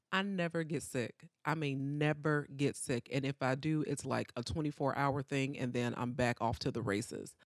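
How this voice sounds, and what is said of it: Sore-throated, unwell voice. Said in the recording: “my voice is not what it usually is ... battling a sore throat for 4 days”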